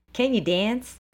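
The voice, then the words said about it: Put-on New York accent. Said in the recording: “Is that your accent of a New Yorker?”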